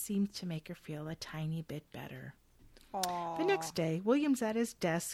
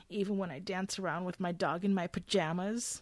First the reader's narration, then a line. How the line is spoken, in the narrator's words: She sniffles loudly and asks